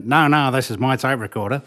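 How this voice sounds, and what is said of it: Imitates another person's voice. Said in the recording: “that's exactly how he spoke”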